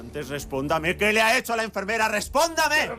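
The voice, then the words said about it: Loud, shrill high-pitched shouting. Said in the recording (Spanish): “¡Baje la voz! ... ¡Baje esa voz de pito que tiene”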